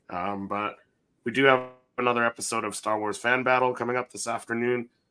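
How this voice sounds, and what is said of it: Hoarse, strained voice. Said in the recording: “slowly losing my voice today”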